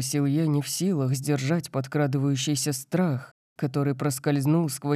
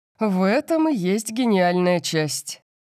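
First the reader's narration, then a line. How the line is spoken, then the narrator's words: Excited laughing, over phone. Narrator (Russian): сказал папа, посмеявшись, когда его волнение передалось по телефону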